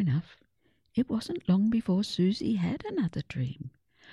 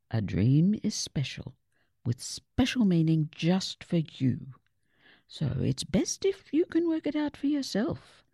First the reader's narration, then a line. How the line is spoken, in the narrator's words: Gran said kindly